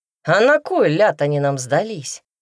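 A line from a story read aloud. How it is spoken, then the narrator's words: Loud snort. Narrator (Russian): громко фыркнула Марфа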